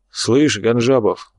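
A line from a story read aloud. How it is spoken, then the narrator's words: Sighing. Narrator (Russian): вздохнул Ерофеев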